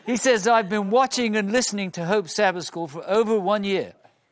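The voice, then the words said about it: British accent. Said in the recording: “my British accent comes back ... Should I read it all with a British accent?”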